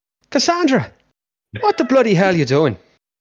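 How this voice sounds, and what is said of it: Put-on Irish accent. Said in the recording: “To all our Irish listeners, I'm very sorry. ... disadvantage for the accent.”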